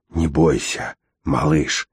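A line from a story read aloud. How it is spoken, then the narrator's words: Hissed. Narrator (Russian): прошипел он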